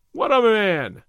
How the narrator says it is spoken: the captain exclaimed

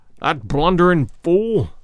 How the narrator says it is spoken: Holmes said, bitterly

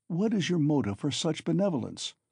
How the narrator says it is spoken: asked Raskolnikov

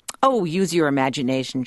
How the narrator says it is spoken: snaps

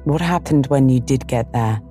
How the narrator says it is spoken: She sighed

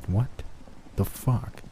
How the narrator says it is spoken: I murmured to myself

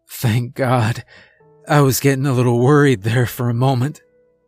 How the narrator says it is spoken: groaned

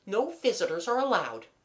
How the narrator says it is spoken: said the aunt rather impatiently

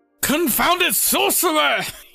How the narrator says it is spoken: kind of yelled out

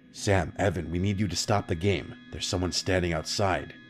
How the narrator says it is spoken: she whispered

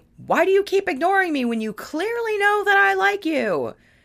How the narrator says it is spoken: he suddenly burst into an angry yell, shouting

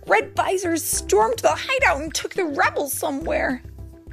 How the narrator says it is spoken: he cried

